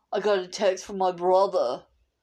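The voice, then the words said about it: Bad imitated accent. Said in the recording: “that was a bad accent”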